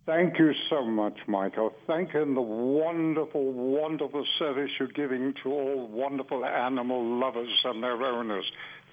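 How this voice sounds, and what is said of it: New York Bronx accent. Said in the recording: “I love your Bronx accent”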